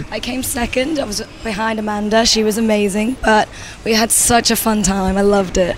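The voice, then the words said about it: Raspy voice with a UK accent. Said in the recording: “she's coming with a very beautiful, sexy, raspy today because of a little bit of naughtiness. But a really nice accent from the UK”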